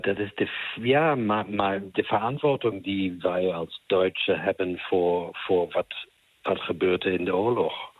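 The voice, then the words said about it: German accent in Dutch. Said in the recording (Dutch): “ik hoor ook Duits accent”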